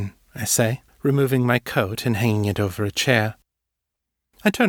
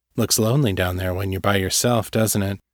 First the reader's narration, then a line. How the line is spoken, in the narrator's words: he says